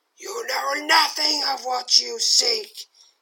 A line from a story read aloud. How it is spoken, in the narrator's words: cries angrily